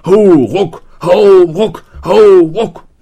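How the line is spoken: Cheerful group bellowing. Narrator (German): die anderen brüllten munter

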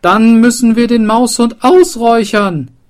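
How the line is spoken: Mayor calling out. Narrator (German): rief der Bürgermeister

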